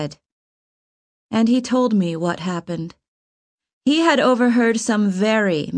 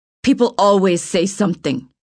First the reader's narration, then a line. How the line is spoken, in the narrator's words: he answered bitterly